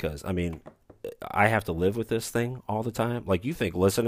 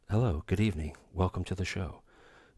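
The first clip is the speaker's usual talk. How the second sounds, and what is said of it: Soft, soothing ASMR-style voice. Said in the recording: “Do you prefer my ASMR voice?”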